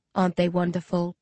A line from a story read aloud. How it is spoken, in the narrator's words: Someone murmurs behind me